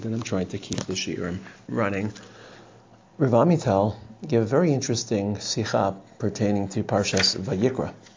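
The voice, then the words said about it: Congested voice with a cold. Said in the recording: “I apologize for my voice. I have a bit of a cold”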